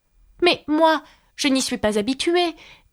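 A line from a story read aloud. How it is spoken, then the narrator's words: Pitiful, apologetic voice. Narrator (French): dit Alice d'une voix pitoyable afin de s'excuser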